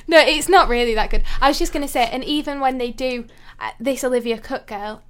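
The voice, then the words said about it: Leeds accent. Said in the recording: “you're the second most famous person with a Leeds accent after Keith Lemon”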